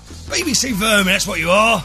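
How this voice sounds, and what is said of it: Imitated Cockney accent. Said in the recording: “he was a Cockney actor then... That was a Cockney accent”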